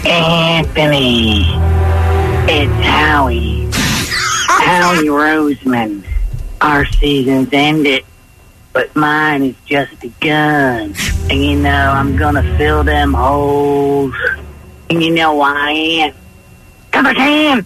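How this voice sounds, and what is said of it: Impression of Howie Roseman. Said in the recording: “a Howie impersonation ... He's bastardizing ... It's no good, though.”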